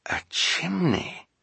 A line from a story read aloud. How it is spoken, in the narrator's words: Klaus murmured